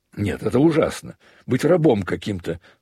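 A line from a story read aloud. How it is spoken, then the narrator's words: Vexed outcry. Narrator (Russian): вскрикнул Левин, не в силах более удерживать свои досады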